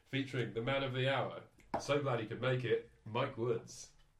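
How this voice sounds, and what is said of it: Exaggerated radio host voice. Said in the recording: “That was a very sort of, well, just awful radio voice.”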